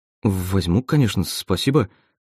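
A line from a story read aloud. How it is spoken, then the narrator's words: Stammering mumble. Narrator (Russian): заикаясь, пробормотал я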